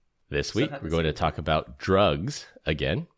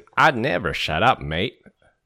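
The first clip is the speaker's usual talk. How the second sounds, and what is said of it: Australian accent with Texas twang. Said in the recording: “do my best Australian accent ... That's a little bit of Texas inside there, twang Texas, as well. ... A lot of Texas.”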